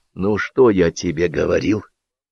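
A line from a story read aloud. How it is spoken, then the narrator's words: Whisper. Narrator (Russian): шепнул Белявский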